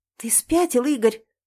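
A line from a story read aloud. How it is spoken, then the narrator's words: Hoarse whisper. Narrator (Russian): Хрипло шепчу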